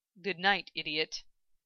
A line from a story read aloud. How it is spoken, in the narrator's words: he muttered in a low voice